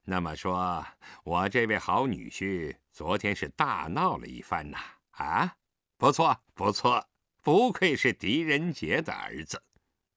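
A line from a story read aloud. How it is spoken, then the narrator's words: Cold sneer. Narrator (Chinese): 冷笑一声道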